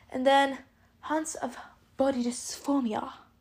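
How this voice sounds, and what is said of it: Brief put-on accent. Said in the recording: “I don't know why I said it in an accent”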